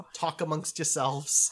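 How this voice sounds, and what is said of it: Put-on New York accent. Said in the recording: “That was pretty good, actually. Pretty good impression... A New York accent... It's a New York Jew accent.”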